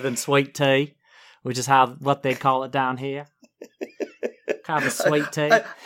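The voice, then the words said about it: Put-on Southern American accent. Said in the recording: “I've never heard your southern accent before. That's good.”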